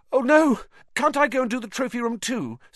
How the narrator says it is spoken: said Harry desperately

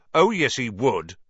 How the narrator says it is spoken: said Ron, even more loudly than Dean

